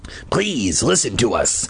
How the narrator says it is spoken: Hap rasped

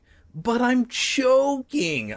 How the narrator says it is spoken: I cried, gasping and holding my throat

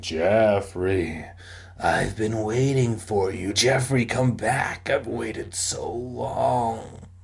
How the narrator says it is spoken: The ghost moaning

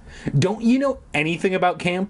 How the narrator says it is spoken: snapped

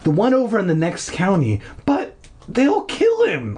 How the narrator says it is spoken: I cried

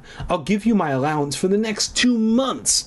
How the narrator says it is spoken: I cried

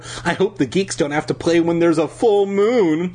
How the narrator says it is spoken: Christina exclaimed

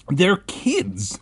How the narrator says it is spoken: Ben exclaimed

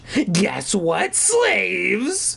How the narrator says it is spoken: He rasped

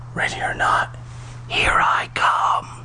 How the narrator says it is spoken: I whispered

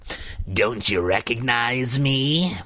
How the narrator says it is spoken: Carly Beth rasped

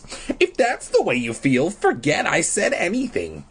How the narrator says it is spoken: I said in my squeaky little boy voice

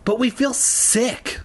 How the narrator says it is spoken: Lee moaned

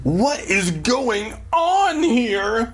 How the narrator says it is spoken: Dad cried

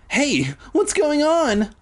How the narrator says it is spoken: I cried

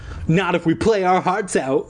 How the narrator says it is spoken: Christina exclaimed with emotion

